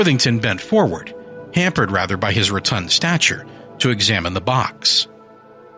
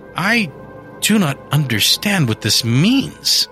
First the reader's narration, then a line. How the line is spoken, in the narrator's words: said Cartwright falteringly